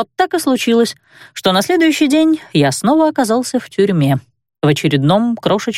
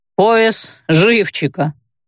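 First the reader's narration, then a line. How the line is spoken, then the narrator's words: Chuckling reply. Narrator (Russian): хохотнул в ответ Раджер, один из представленных ко мне тюремщиков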